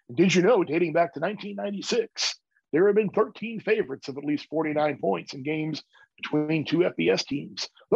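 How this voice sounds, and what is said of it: Announcer-style voiceover voice. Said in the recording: “I'll do my voiceover voice.”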